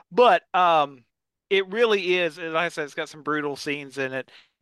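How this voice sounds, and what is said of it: Eastern Kentucky accent. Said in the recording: “forgive the Eastern Kentucky accent”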